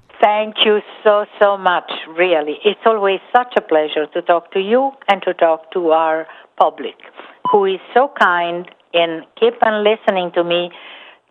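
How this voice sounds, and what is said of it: Heavy Italian accent. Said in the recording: “the Italian lady with the heavy accent.”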